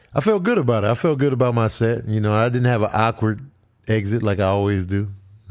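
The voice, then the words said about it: Hoarse, worn-out voice. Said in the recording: “my voice is extra tore up today, because I went hard, man. I went high energy.”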